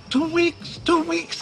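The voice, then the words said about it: Squawky parakeet-like repeating voice. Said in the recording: “You sound like a parakeet”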